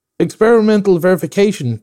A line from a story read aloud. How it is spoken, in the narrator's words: cried I